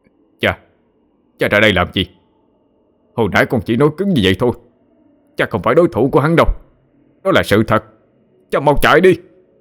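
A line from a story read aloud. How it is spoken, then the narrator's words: Yelling. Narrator (Vietnamese): con của sát hoàng gào lên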